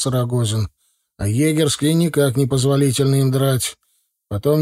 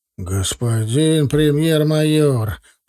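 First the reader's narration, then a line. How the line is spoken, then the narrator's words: Offended drawl. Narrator (Russian): протянул обиженный капитан Армус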